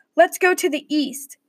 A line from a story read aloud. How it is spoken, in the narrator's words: Charles exclaimed